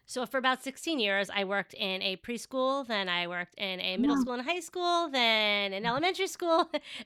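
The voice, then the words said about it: Thick Long Island New York accent. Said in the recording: “my thick Long Island accent”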